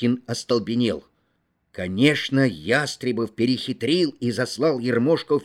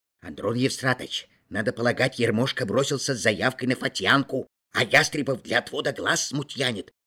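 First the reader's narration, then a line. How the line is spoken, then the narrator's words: Whispered. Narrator (Russian): шепотом сообщил Мыльников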